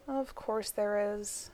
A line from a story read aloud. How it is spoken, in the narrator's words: Elizabeth said, sighing